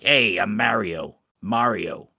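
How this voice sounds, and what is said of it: Mario's sleazy New York Italian accent. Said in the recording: “every kind of vocal depiction of Mario up until Mario 64, you always had that sleazy New York Italian accent”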